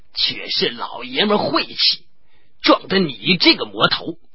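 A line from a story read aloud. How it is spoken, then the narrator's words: Muttering, complaining. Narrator (Chinese): 董超喃喃多多的，口里埋怨叫苦，说道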